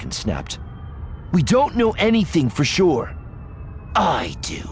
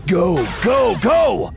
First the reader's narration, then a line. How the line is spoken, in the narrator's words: Voss shouted